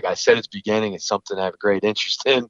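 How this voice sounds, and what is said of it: Animated, slightly fast speech. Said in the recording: “you could tell by my voice inflection and at times probably talking a little bit fast and a little bit much”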